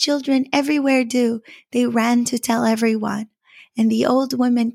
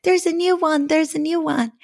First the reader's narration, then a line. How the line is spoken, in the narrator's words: the children who came to feed the swan bits of bread cried out